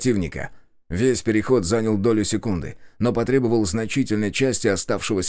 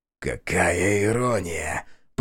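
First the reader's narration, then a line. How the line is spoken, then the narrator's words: Hoarse rasp. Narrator (Russian): прохрипел он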